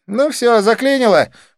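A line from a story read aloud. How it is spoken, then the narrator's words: Snorting. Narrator (Russian): фыркнула Дива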